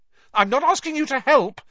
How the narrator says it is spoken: Hermione snapped

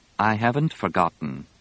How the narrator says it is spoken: Leia said evenly

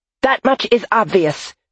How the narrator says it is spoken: she snapped

